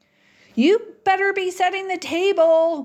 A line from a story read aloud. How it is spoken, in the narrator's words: Mom yells now from the porch